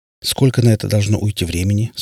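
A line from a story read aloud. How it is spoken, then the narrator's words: Plain. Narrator (Russian): спросил Дэвид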